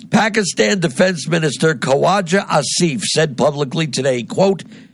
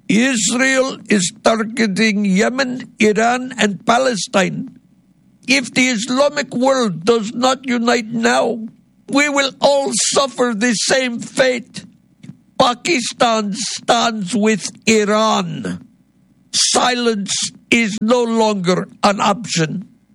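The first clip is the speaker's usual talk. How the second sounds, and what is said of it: Put-on accent. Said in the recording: “this stupid accent”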